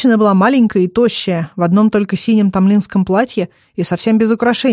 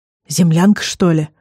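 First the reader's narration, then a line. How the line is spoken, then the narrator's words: Spellbound breathless exclamation. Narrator (Russian): выдохнул, завороженно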